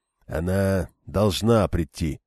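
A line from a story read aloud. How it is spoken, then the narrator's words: Muttering. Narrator (Russian): пробормотал Арганда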